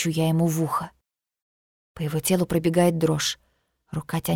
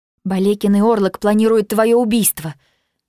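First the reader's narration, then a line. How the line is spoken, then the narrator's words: Excited, agitated. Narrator (Russian): говорю я взволнованно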